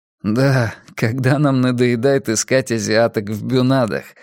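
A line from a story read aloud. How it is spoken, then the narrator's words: Laughing. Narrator (Russian): засмеялся Габриэль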